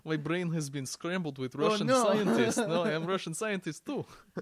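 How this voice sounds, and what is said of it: Put-on Russian accent. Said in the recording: “Why am I speaking with a Russian accent?”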